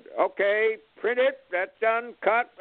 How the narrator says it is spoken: yelled out

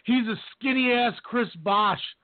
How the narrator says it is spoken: I screamed

